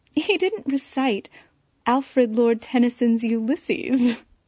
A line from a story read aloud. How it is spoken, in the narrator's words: ended with a chuckle